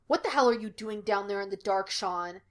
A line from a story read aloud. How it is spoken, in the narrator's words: he snapped